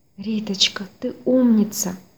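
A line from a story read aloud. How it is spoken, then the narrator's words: Whispered. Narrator (Russian): прошептала Людмила Павловна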